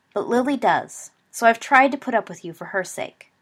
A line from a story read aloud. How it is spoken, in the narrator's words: Remus said coldly